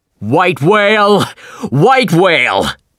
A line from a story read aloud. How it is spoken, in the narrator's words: the captain shouted